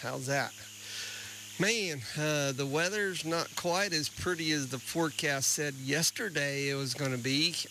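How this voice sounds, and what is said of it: Slightly hoarse voice. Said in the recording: “I'm in a little hoarse. I've been outside in this weather feeding cows this morning. So, sorry for the hoarseness.”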